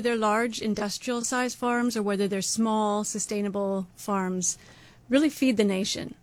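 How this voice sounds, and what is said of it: Canadian accent. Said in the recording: “I grew up in Canada. You can probably hear from my accent.”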